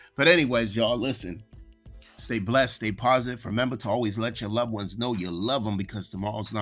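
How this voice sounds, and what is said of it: Usual voice. Nothing is said of it.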